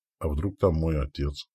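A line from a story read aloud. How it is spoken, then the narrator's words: Whisper. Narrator (Russian): прошептал Радко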